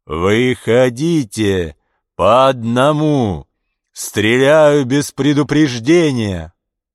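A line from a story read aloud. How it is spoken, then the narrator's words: Megaphone-amplified roar. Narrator (Russian): Усиленный мегафоном голос проревел из огненного тумана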